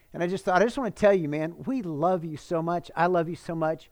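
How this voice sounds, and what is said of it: Emotional, near-tearful voice. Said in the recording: “I'm getting emotional right now. I got a little bit sad”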